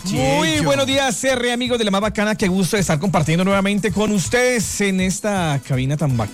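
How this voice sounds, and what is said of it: Radio announcer voice. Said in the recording (Spanish): “Tiene voz de locutor.”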